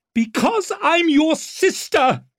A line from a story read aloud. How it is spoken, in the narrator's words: she screamed in his face